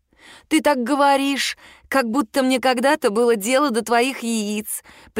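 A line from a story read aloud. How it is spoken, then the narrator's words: Sickly sweet voice. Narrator (Russian): приторно-сладким голосом отвечаю я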